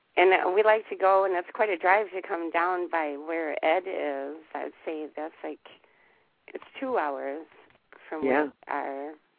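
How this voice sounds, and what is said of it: Strange, congested-sounding voice. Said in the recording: “I'm getting over a cold, so my voice is strange”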